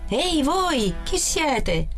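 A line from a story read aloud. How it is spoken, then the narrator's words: Shouting. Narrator (Italian): Il guardiano gridò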